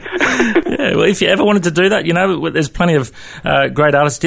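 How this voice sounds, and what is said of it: Australian accent. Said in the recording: “you got a pretty good Aussie accent just talking to me”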